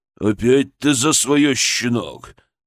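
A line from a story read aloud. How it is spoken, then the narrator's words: Angry growl. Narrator (Russian): прорычал он, сжимая кулаки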